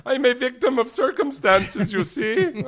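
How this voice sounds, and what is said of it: Put-on German accent. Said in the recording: “It's a great German accent.”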